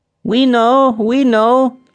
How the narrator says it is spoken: chirped the sparrows

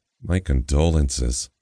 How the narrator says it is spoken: she grumbles

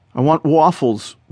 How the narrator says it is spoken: whimpers Adam, cowering behind his mother

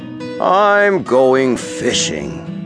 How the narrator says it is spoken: said he, in his deep, grumbly-rumbly voice

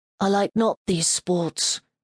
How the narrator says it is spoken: He murmured

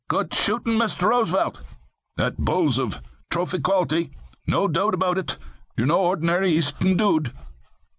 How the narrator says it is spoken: They called out

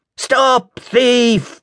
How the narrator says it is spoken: cried 100 angry voices

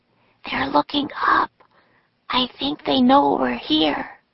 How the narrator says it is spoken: whispered Annie

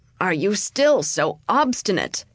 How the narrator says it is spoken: exclaimed the Grand Vizier

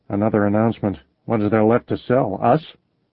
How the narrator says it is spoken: Brother Bob said under his breath

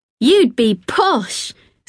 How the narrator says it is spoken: said, and laughed a little, to encourage to laugh too

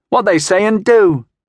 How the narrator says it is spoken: the children yelled happily

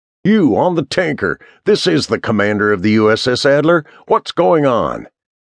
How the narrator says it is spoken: hollered down, but the rumbling engines drowned out his voice

